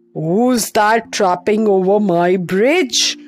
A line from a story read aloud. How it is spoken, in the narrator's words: roared the troll from underneath the bridge